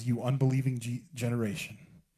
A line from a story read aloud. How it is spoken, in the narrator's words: Jesus replied